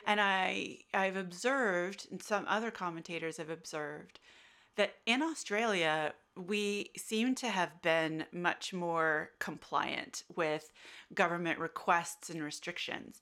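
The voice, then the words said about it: American accent. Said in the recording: “you can tell from my accent, I'm American.”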